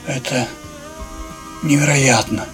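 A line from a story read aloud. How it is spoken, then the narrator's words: Breathless. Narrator (Russian): выдохнул мужчина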